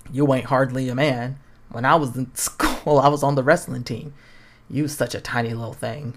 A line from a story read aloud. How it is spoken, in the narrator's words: scoffs